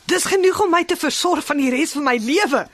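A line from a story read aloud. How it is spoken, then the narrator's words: Happy beggar, aloud to himself. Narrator (Afrikaans): Die bedelaar is baie bly en hy sê hardop vir homself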